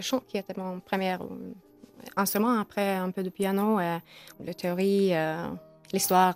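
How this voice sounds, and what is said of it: Foreign accent in French. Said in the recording (French): “J'adore votre accent.”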